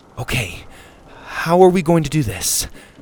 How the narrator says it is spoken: Susie said nervously

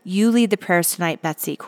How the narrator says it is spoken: Corey said

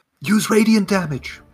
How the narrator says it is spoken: yell out

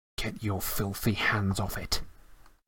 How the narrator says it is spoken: Harry snarled under his breath

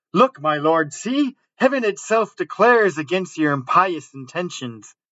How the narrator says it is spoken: Isabella, who gathered courage from her situation, cried

